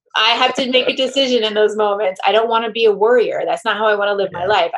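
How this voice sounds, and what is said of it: Speaks with a noticeable accent. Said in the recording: “with your accent, it sounded like you said the same word twice”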